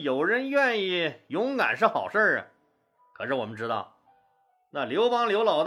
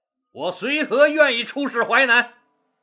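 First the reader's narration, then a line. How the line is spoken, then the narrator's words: Loud. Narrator (Chinese): 他大声说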